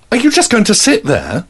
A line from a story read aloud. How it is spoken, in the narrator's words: Her voice rose with every word